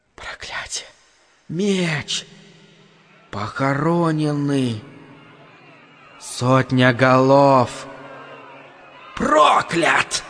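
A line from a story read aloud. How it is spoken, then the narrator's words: Fast, louder whisper. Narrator (Russian): матушка Неб зашептала скорее и громче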